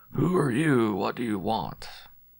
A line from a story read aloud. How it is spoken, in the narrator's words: The tone of his voice froze me